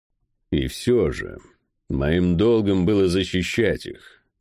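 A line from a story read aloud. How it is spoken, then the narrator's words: Hollow, bitter, angry. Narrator (Russian): глухо произнес Дейт, испытывая злость, горечь и опустошение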